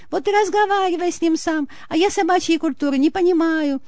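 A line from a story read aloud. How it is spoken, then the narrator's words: Frightened, defiant shout. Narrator (Russian): Строптиво крикнула перепуганная женщина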